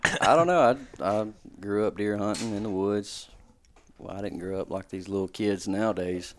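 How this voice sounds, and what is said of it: Smooth radio-like voice. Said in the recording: “You got a radio voice ... it's buttery smooth”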